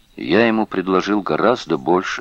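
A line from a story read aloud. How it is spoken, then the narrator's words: Plain. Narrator (Russian): сказал он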